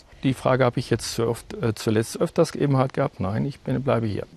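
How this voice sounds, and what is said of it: Charming Münster regional German accent. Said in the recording (German): “charmanten Akzent aus Münster ... Man hört es ja, dass Sie nicht von hier kommen.”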